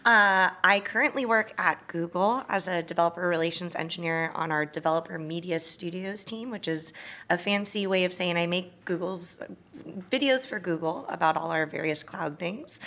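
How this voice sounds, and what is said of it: Hoarse, raspy voice. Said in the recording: “I'm very hoarse. I sound like Countess Luann right now because this is the most I've socialized with people in years.”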